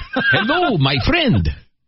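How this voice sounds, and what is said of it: Put-on foreign accent. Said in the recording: “Adopt an accent.”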